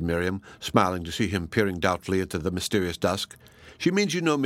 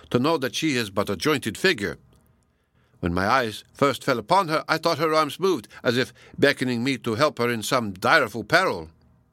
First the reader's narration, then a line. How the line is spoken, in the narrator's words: exclaimed Donatello